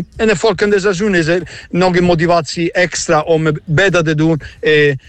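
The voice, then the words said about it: Italian accent speaking Dutch. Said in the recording (Dutch): “het accent kun je natuurlijk horen. Dit is gewoon een echte Italiaan.”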